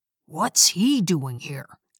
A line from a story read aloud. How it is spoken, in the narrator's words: Dad whispered to me